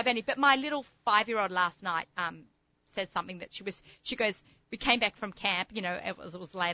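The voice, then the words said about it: Thick Australian accent. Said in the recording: “I still have a really thick Australian accent.”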